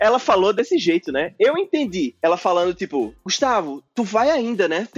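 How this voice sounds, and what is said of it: Usual voice. Nothing is said of it.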